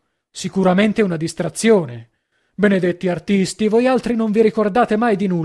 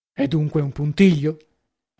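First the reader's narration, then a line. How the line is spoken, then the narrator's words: Added quietly. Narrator (Italian): aggiunse a bassa voce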